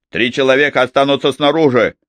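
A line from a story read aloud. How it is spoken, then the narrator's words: Gruff. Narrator (Russian): грубо сказал он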